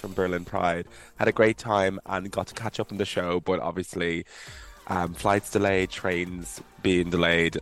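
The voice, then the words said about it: Hoarse voice. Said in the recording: “My voice is so hoarse”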